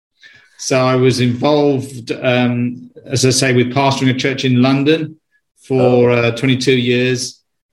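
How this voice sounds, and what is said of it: British accent. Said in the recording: “I'm a Brit. You can probably tell from my accent”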